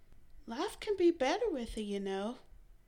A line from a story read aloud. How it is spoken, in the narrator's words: Mary sighed